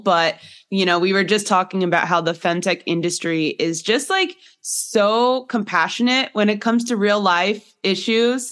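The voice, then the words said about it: Congested voice from a cold. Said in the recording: “As you can tell from my voice a little bit, I'm still getting over a head cold”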